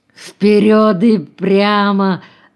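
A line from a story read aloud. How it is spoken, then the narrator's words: Playful wheezing voice. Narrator (Russian): шутливо просипел он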